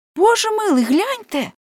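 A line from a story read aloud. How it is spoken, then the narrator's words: Exclaimed. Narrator (Ukrainian): вигукнула Леонсія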